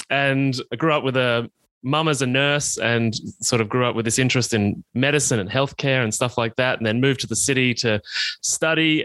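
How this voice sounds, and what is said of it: Rural Australian accent. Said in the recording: “I grew up in country Australia, as you can probably tell from my accent,”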